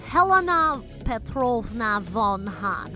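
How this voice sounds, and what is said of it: Attempted Russian accent. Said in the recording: “Let's try my Russian accent again. ... Was that any better? I don't think so.”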